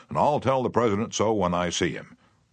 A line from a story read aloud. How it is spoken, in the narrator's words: Roosevelt boomed